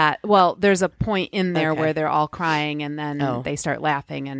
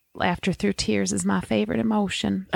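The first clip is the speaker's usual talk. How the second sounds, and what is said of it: A light put-on Southern accent. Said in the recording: “I can do a little bit of a Southern accent.”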